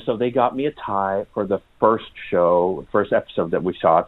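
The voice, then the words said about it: American accent. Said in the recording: “I may have an American accent”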